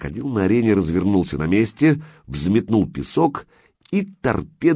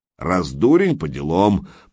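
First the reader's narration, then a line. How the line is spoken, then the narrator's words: Giant's deep bass. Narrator (Russian): пробасил великан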